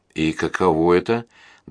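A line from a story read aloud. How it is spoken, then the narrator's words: Trembling voice. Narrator (Russian): дрожащим голосом спросила Мэй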